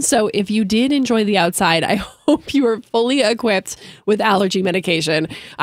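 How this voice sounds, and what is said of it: Congested, stuffy voice. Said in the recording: “if you can't tell by my voice, I'm suffering a little bit”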